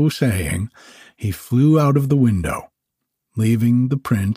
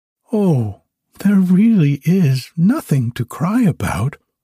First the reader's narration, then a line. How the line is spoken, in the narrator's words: answered soothingly